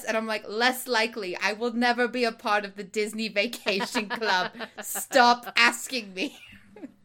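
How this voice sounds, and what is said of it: Old-movie quirky reporter accent. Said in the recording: “What is this accent I've got going on tonight? ... It's like a little bit, you know, old movie. ... You're channeling the 50s. ... I'm channeling the quirky girl reporter.”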